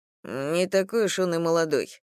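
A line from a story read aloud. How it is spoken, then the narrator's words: Grumbled. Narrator (Russian): проворчал Илья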